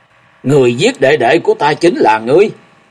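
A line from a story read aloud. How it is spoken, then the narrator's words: Sudden roar. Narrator (Vietnamese): nhị thiếu cốc chủ thì đột ngột gầm lên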